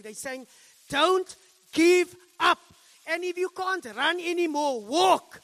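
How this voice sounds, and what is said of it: Raised, loud preaching voice. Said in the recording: “I'm sorry if I'm raising my voice. It's not because I'm angry”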